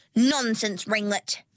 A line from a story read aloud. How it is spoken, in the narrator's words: snapped Platita